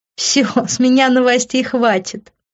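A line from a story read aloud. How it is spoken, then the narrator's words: Giggling. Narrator (Russian): я … еще хихикая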